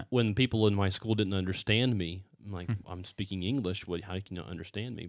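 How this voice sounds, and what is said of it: West Virginia accent, slurred vowels. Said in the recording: “that West Virginia aspect of it ... I've tried to fix my accent ... I needed to not slur my vowels so much.”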